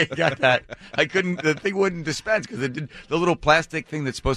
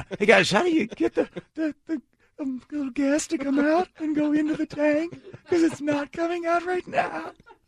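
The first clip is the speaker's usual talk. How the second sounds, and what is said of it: Higher-pitched, pathetic-sounding voice. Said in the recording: “my voice got higher. I got even more and more pathetic.”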